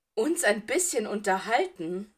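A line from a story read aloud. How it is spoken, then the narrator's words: Said with a laugh. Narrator (German): sagte Potter und lachte wieder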